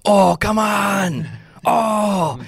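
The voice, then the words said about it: Guttural yelling imitation of another person. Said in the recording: “pardon the bad impression, but it's like, it's almost like Arnold Schwarzenegger a little bit. He's got such like that guttural scream and yell.”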